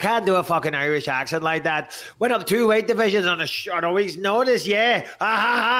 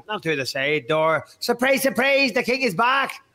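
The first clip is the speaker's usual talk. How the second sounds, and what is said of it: Northern Irish accent. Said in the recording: “I could do a Northern Irish accent.”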